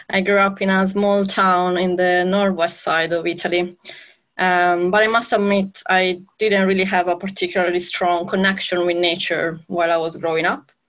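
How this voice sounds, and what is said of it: Italian accent. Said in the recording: “You might guess from my accent, I'm Italian.”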